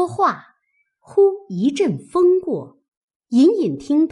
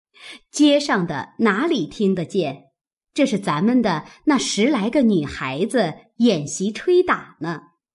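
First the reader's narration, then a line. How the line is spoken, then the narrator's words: Laughing reply. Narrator (Chinese): 王夫人等笑回道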